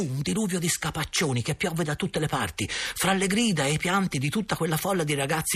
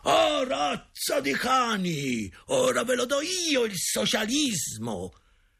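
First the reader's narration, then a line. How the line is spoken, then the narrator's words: Father's terrible booming shout. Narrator (Italian): una voce terribile, quella di mio padre, rimbombò nel negozio gridando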